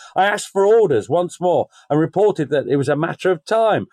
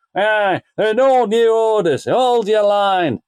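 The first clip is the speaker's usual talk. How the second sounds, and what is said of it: Wakefield-sounding put-on accent. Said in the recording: “was his superior from Wakefield?... you wasn't trying to do a Hungarian accent, wasn't you?”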